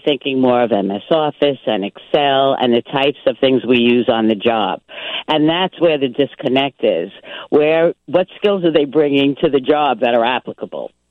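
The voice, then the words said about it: New York accent. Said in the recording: “you're from New York ... I can't get rid of this accent”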